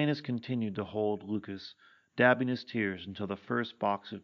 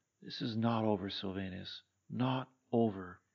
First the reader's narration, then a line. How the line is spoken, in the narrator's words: Lucas calmly said